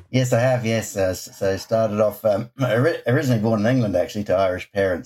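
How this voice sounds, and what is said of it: New Zealand accent. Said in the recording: “the accent gives me away. New Zealand is where I'd consider home”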